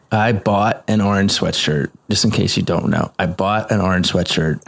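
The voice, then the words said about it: Virginia accent. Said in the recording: “I love hearing you say orange, by the way. Your Virginia accent comes out.”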